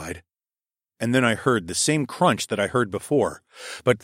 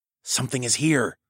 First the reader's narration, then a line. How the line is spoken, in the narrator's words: hissed